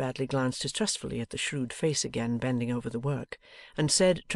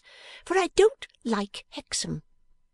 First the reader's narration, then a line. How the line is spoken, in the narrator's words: returned Miss Wren, snapping her fingers in a volley of impatient snaps